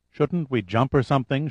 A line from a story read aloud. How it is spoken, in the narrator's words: asked in a vague tone